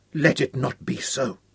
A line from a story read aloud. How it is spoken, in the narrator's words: Hal whispered